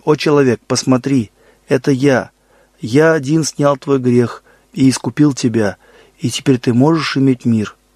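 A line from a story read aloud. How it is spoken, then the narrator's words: Plain. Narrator (Russian): говорит Господь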